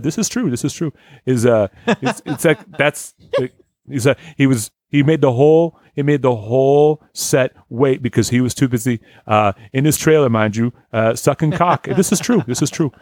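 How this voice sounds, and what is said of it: Robert De Niro impression. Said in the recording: “everyone puts that in their impression ... It was just like Robert De Niro”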